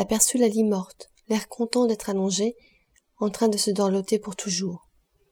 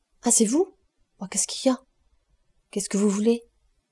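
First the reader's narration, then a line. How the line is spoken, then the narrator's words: Stammering passionate pleading woman. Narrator (French): Gervaise, ne sachant plus ce qu'elle bégayait, se mit à le supplier avec passion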